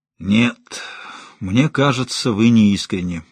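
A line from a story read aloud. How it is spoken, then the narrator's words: Gloomy, snuffling. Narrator (Russian): мрачно заявил Рутински, сопя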